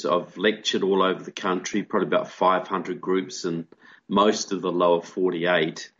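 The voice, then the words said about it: New Zealand accent. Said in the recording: “by my accent, I'm not from America. I'm originally from New Zealand”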